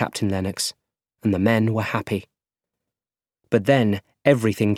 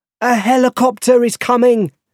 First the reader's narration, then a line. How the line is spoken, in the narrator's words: shouted a soldier in the computer room